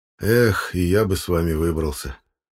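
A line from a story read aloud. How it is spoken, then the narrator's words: Sad sigh, father. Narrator (Russian): Грустно вздохнул отец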